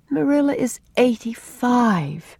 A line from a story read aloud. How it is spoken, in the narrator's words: said Anne with a sigh